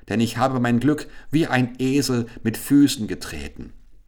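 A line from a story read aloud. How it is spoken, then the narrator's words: Exclaimed. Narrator (German): rief er aus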